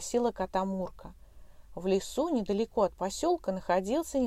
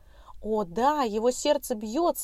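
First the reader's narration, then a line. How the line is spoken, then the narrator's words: Joyful exclamation. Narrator (Russian): обрадованно воскликнула Брукса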